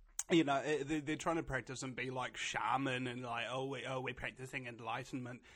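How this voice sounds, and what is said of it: Usual voice. Nothing is said of it.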